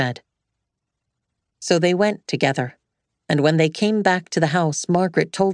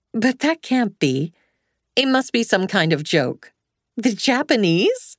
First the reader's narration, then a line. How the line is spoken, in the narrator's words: She tried to laugh